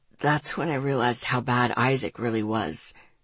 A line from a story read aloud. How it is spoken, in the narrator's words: he said quietly, his voice thick